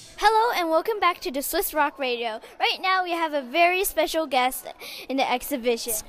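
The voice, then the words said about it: Radio DJ announcer voice. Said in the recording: “You have a natural radio voice. You sound like, hey, it's 670 DJ here.”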